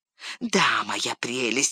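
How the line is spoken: Hissing. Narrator (Russian): шипел Горлум

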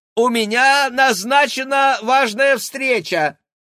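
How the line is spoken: Shout while running. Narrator (Russian): крикнул на бегу

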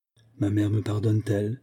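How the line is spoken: Soft, submissive, graceful. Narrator (French): demanda doucement Olga, avec toute la soumission, toute la grâce qu'elle savait si bien déployer à l'occasion

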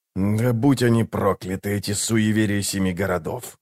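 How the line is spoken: Quiet cursing. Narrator (Russian): тихо выругался он

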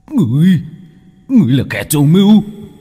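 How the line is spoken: Hissed. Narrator (Vietnamese): Tên thủ lĩnh rít lên

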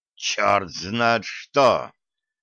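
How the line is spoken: Officer hissing through teeth. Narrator (Russian): прошипел сквозь зубы офицер

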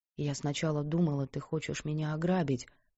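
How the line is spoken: Quiet. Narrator (Russian): тихо сказала она

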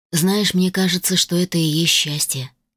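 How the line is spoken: Remarked. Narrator (Russian): заметил Конор

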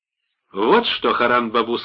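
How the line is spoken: Plain. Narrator (Russian): сказала Лолита

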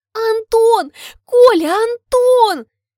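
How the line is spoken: Squeal. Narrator (Russian): Взвизгиваю

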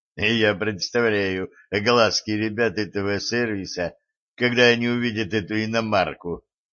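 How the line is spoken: Giggling. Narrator (Russian): хихикнул байкер

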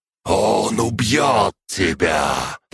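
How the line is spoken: Hissing inner voice. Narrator (Russian): прошипел иерарх из чертога души

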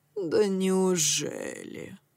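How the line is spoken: Cooing woman. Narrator (Russian): проворковала она

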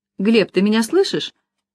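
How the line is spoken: Hurt, offended question. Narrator (Russian): обиженно спросила Лиза

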